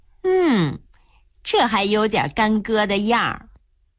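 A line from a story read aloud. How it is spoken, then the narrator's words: Laughing. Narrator (Chinese): 春燕笑了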